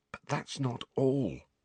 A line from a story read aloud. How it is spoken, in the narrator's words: said Harry, in a voice only a little above a whisper